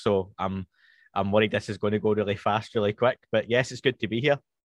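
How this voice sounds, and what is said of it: Scottish accent, slowed and posher. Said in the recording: “speaking to somebody else on a podcast with a Scottish accent, because I work really hard on mine to slow it down and speak a bit more posh”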